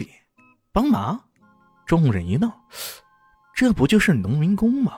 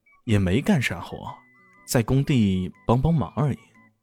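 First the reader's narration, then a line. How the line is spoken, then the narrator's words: Cold, mocking, flat. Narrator (Chinese): 李炫嘴角露出一丝冷嘲，淡淡的说道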